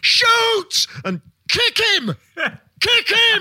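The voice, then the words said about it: Bellowing commentator impression. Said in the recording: “He just becomes a bellowing maniac. ... Really good Drury impression.”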